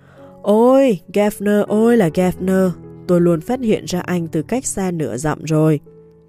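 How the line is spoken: Calm, sighing. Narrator (Vietnamese): ông Ripsley tỉnh bơ, thở dài nói

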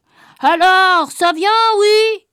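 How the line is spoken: Shouting. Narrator (French): il criait

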